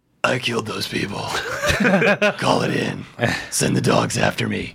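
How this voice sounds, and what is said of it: Batman impression. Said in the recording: “such a good impression”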